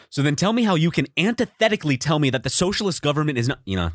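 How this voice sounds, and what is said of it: Imitates another person's voice. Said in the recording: “my Vosh impression”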